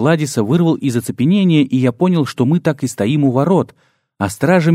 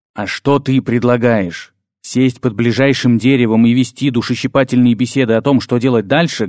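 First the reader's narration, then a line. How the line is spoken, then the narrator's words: Barked loudly. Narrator (Russian): гаркнул Дар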